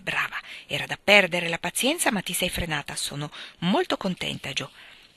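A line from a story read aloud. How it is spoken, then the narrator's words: Whispered. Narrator (Italian): Meg … sottovoce le disse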